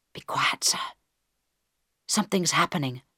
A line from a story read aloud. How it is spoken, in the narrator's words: Harold whispered back